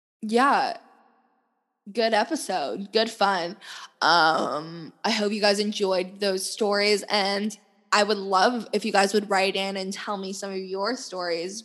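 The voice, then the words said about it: Strained, fading voice. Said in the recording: “I'm losing my voice. You guys can probably hear just because I've been presenting all fucking day long.”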